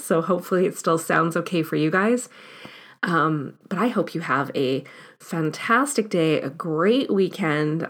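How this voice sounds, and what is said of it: Hoarse, fading voice from cold. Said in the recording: “I feel like I'm coming out with a cold and losing my voice right now”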